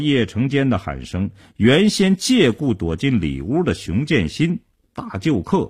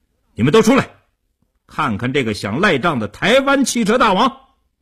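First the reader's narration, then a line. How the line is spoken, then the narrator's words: Fierce raised shout. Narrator (Chinese): 叶成坚恶狠狠地盯着刘少坤，提高声音对里屋喊道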